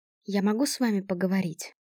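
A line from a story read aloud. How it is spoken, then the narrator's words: Timid question. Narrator (Russian): робко спросила Зария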